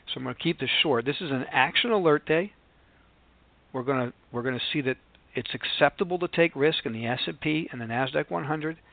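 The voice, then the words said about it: Sick, unwell-sounding voice. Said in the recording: “As you can hear in my voice, I'm seriously under the weather.”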